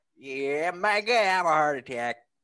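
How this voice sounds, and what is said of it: Imitates another person's voice. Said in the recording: “What accent was that? ... It's the Chris Farley. ... He needs some work on that one, buddy. ... That impression is draining my energy.”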